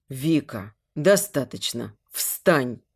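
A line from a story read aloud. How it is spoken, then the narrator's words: Confident but gentle. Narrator (Russian): Говорю уверенно, но мягко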